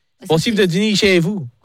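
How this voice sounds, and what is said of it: Poor nasal put-on Canadian French accent. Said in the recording (French): “accent, il est claqué ... parler un peu comme ça de ton nez ... Va chercher dans ta cloison nasale ... Je suis canadien”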